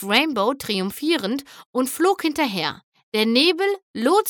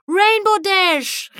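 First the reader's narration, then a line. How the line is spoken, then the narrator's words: Calling out. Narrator (German): rief eine Stimme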